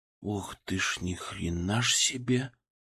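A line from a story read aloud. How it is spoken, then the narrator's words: Whisper from behind. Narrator (Russian): прошептал кто-то за моей спиной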